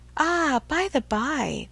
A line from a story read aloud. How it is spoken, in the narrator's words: with a sudden accession of gay thought, she cried